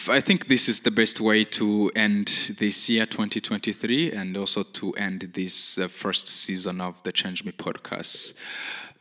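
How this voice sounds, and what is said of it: Hard-to-place non-native accent. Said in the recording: “my pretty confusing accent”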